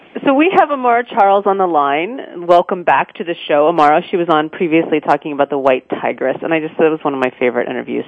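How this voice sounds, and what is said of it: Weak, unwell voice. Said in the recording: “I'm under the weather and my voice is coming and going.”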